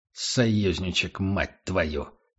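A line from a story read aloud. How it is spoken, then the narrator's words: Through gritted teeth. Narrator (Russian): процедил Эрих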